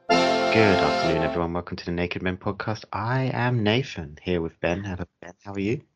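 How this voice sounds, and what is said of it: Very calm, soothing radio voice. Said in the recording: “You're very calm today. Your voice is very calm. ... public radio show ... Beautifully voiced. This will work on like a meditation app.”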